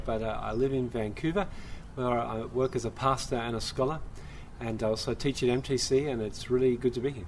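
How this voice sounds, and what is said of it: Australian accent. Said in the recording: “tell us about this accent ... I'm an Aussie. I come from Sydney, Australia”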